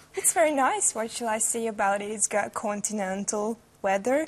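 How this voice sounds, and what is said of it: Slight Hungarian accent. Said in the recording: “you've got a bit of an accent ... From Hungary.”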